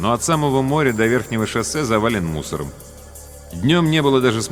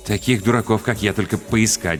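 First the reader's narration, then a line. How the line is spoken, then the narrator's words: Muttering. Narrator (Russian): бормотал Макс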